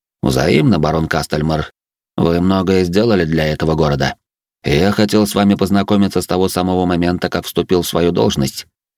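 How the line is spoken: Plain. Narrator (Russian): ответил губернатор

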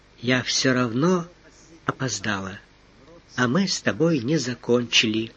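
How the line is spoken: Husky whisper in ear. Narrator (Russian): Хрипловатый голос прошептал в самое ухо

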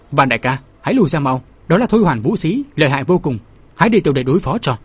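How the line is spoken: Loud alarmed shout. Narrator (Vietnamese): Vệ Thích đứng ngoài thấy Thôi Hoàn đạo nhân dùng chiếc nhẫn gang kẹp chặt mũi kiếm liền hét lớn

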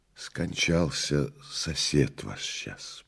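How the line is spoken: Kind, truthful whisper. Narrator (Russian): прошептала Прасковья Федоровна, не будучи в силах преодолеть свою правдивость и доброту

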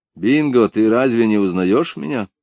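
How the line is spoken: Calm. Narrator (Russian): сказал спокойно

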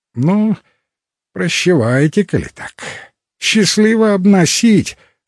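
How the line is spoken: Slightly disappointed sigh. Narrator (Russian): сказал он, несколько разочарованно вздохнул

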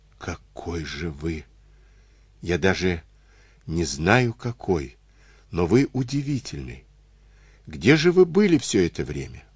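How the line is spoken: Quiet sob. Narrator (Russian): Тихо всхлипнув

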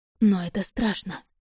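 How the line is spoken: Whisper. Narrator (Russian): прошептала

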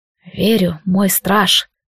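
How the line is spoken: Hoarse. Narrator (Russian): хрипло сказал Лилайн

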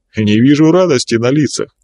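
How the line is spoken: Cheerful, smiling. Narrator (Russian): улыбнувшись, весело произнес

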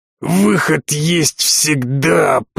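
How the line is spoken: Hoarse wheeze. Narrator (Russian): прохрипел я

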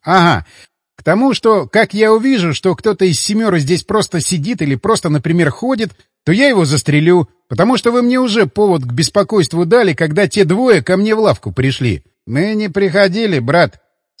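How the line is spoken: Plain. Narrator (Russian): сказал кавказец

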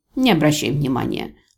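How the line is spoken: Grumble, suppressed anger. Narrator (Russian): проворчала я, справившись с мгновенным всплеском гнева

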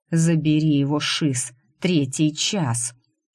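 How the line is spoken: Cursing through clenched teeth. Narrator (Russian): сквозь зубы выругался Шорох

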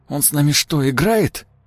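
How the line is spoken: Hoarse young man's blurt. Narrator (Russian): Хрипло вырвалось у молодого напарника

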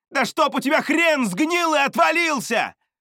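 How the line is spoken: Shouted after someone. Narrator (Russian): крикнул я ему вслед

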